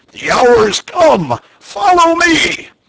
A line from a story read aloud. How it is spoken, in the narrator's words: cried